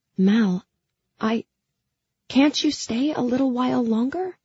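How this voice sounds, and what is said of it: Pleading voice. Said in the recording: “I heard the pleading in my voice.”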